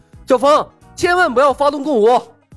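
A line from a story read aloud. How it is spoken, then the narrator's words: Loud urgent call. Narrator (Chinese): 情况紧急，李牧鼓足了所有的内力，高声向冯公子传音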